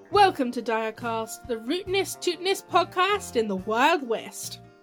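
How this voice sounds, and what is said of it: Put-on Western American accent. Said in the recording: “my flawless Western American accent ... I'm going to stop using this accent now”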